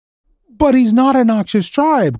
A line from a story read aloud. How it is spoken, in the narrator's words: cried the boy distressedly